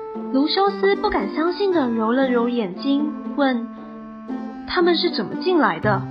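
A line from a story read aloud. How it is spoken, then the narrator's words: Whispered. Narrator (Chinese): 路易斯小声地说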